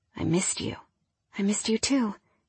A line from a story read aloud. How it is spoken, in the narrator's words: whispered